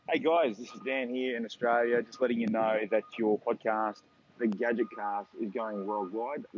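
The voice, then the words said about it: Australian accent. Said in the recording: “He does have a nice like Australian accent.”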